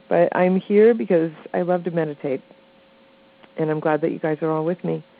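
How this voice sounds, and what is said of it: Scratchy, slightly nasal voice. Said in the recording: “my voice is a little scratchy this morning... Hopefully I won't sound too nasally.”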